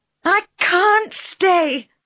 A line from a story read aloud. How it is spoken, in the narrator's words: I cried furiously